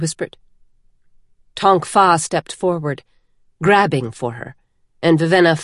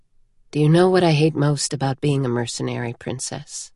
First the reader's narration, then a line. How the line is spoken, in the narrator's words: Denth asked quietly